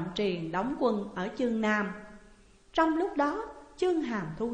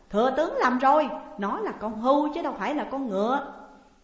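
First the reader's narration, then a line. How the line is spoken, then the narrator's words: Laughing loudly. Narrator (Vietnamese): Vua Nhị Thế cười lớn rồi nói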